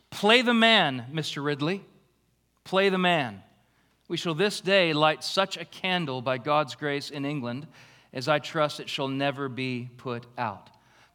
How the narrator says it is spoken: Latimer called out to his friend

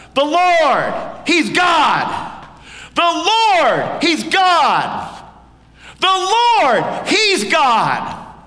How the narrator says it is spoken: And we shout out

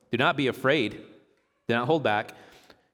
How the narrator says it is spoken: he said

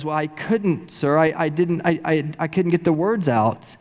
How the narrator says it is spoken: Bob Wilson, with his stuttering lips, says

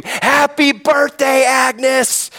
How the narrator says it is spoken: they shout and scream

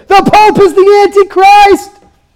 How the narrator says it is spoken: started yelling again

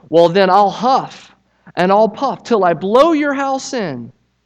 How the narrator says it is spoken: the wolf shouted

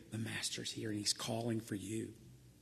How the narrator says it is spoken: Martha whispers to Mary

